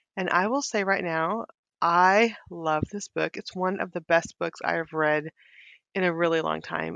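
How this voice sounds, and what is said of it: Rough, slightly hoarse voice. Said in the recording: “my voice sounds a little rough today ... I was dealing with allergies ... today it's a little rough”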